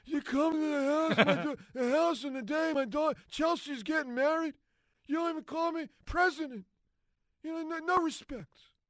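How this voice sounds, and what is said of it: Bill Clinton impression as the Godfather. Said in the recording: “your Bill Clinton Godfather impression ... Godfather Bill Clinton right there.”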